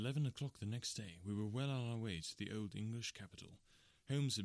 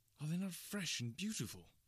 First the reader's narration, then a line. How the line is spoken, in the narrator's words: I cried with all the enthusiasm of a man fresh from the fogs of Baker Street